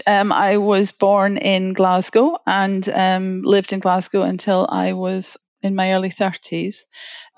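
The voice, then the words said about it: Scottish accent. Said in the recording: “as you can tell from the accent, I'm Scottish”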